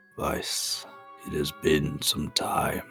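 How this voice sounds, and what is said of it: Slow, rolling voice. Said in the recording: “In a slow voice, like the crashing of waves”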